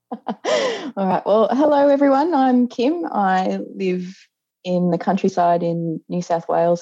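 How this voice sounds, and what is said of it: Australian accent. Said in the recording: “obviously you're in Australia. We can tell that already. ... My accent gives it away.”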